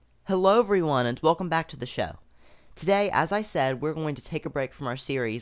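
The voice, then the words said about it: Slightly hoarse voice. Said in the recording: “I'm recovering from a bit of a cold, so my voice is a little hoarse.”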